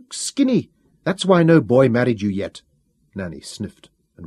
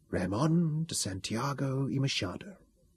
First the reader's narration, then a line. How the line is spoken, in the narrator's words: she whispered